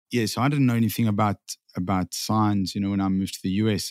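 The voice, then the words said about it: South African accent. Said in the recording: “you're from South Africa, if everybody couldn't hear the accent yet”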